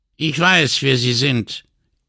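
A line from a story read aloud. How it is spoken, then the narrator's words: Doctor's sharp retort. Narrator (German): entgegnete der Arzt scharf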